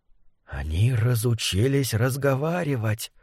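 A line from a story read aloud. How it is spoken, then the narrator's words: Dangerous whisper. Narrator (Russian): прошептал Фасоль опасно для жизни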